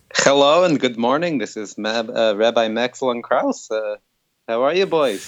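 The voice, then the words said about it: Funny put-on rabbi voice. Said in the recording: “that's what a rabbi sounds like? That's why he's doing that funny voice.”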